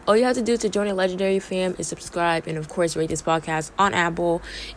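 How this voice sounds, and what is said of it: Hoarse, strained voice. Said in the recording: “I kind of lost my voice, so that's why I sound really weird”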